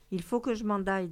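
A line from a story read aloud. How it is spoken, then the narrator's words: Plain. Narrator (French): dit Chica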